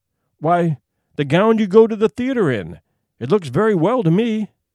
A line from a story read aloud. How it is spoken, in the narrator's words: He stammered